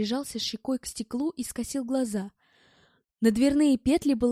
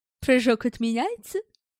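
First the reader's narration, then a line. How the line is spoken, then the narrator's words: Snide. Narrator (Russian): ехидно спросил Эд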